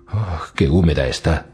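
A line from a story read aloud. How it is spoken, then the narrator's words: Panting thought. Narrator (Spanish): pensó jadeante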